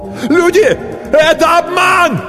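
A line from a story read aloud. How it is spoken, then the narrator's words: Desperate shout. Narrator (Russian): закричал кто-то отчаянно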